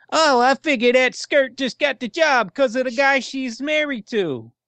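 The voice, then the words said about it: Terrible imitation of another person's voice. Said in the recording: “That's a terrible impression of me”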